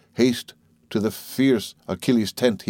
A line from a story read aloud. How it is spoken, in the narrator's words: he cries